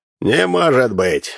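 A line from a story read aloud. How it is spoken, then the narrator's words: Loud laughter. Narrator (Russian): расхохотался Тимофеевич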